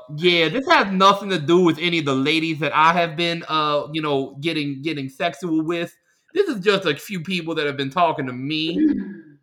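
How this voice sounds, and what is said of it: Imitates a comedy character's voice. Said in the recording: “Can you do your voice ... what character is that? ... That's the ladies, man.”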